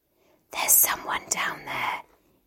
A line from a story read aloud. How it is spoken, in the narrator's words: he whispered